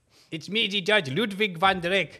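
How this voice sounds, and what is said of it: Character voice of a judge. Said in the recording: “It's not a bad Ludwig van der Eyck impression if you did references from the 70 years ago”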